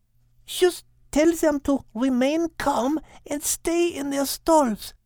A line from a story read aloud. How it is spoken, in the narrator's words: hoarsely whispered